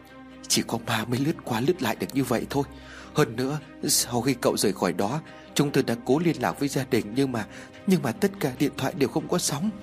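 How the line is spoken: Frightened. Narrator (Vietnamese): Một người khác cũng rất sợ hãi

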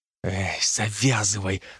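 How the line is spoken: Whisper to oneself. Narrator (Russian): шепнул сам себе

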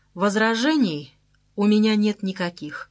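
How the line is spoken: Plain. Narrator (Russian): наконец сказал он

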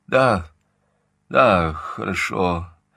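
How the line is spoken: Dejected voice. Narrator (Russian): ответил Сольберг упавшим голосом

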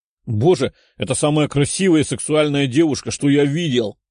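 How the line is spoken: Young man exclaiming. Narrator (Russian): воскликнул парень лет 20

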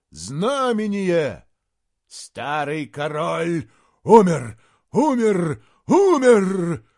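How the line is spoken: Roared. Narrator (Russian): взревел Фенгболд

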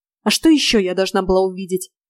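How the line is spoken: Snapping. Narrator (Russian): огрызнулась Нейна Деяна

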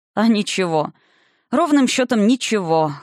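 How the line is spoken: Snort. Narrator (Russian): хмыкнул Валентайн

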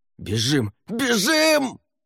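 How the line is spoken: Yelling at full strength. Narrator (Russian): Что было сил, заорал Савьер

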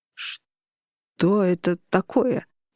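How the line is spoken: Strained, forced out. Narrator (Russian): выдавил Рагнар

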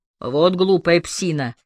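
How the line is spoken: Grumbling. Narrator (Russian): проворчал полицейский, который был за рулем

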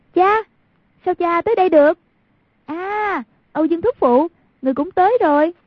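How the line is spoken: Urgent raised cry. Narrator (Vietnamese): Thấy cục diện trước mắt đã vô cùng nguy cấp, lập tức cao giọng kêu

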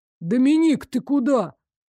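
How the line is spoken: Exclamation. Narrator (Russian): воскликнул Элмер

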